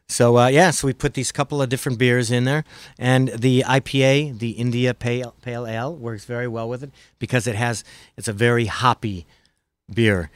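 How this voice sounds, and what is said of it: American Midwest accent. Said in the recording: “My Midwest accent”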